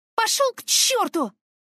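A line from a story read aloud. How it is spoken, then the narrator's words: Yelling. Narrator (Russian): заорала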